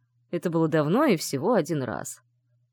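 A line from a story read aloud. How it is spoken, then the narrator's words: Unrepentant snort. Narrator (Russian): хмыкнул Сандер без малейшего чувства сожаления или вины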